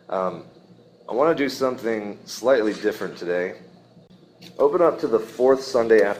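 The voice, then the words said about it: Strained, throaty voice. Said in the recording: “sorry for my voice ... trying to get rid of this in my throat for like 5 days now ... I've already strained it trying to sing this morning, and if this gives out”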